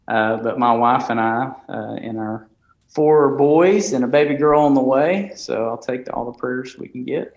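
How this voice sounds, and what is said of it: Strong Alabama Southern accent. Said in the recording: “hence the Alabama accent, just to go ahead and get it out there, the strong slang that you'll pick up”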